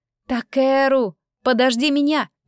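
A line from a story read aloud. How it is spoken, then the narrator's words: Shouted. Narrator (Russian): прокричала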